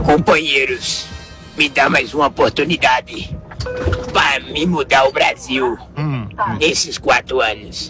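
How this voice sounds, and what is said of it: Imitates another person's voice. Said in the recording (Portuguese): “Olha que imitação, hein?”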